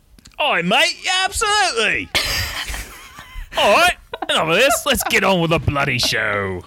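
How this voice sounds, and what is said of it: Put-on Cockney accent. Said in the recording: “can you do a Cockney accent?”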